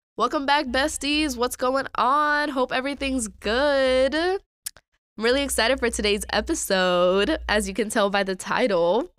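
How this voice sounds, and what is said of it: Raspy, slightly hoarse voice. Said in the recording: “my voice sounds a little weird. I've had a terrible cough for a while now ... if it's a little raspy”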